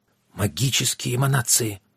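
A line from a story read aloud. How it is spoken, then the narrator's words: Gasping. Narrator (Russian): ахнул Йен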